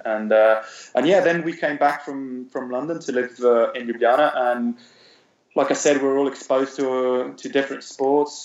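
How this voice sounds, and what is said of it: British-accented English. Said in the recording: “that's here with a British accent.”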